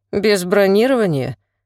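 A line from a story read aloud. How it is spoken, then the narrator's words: Condescending snort. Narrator (Russian): Белов снисходительно фыркнул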